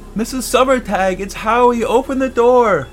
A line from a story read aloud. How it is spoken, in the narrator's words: shouted up